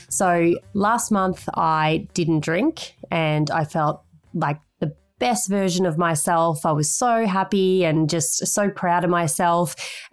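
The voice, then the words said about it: Voice noticeably deeper than usual. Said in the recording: “My voice is a few octaves lower”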